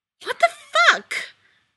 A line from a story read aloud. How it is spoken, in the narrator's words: Arba spat